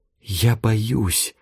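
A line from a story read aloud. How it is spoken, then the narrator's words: Whisper in ear. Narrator (Russian): шепотом сказала Тая, касаясь губами уха Ивана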